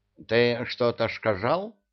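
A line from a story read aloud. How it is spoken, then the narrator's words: Muffled toothless mumble, imp. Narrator (Russian): прошамкал из-под кровати бесенок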